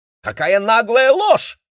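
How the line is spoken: Shouted. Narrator (Russian): крикнула Мэйли

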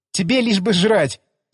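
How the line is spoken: Laughing. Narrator (Russian): засмеялась она

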